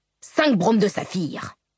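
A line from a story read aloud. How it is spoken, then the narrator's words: Barking. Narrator (French): aboya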